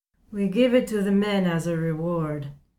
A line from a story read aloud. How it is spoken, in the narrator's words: Jarrett says, only slurring a little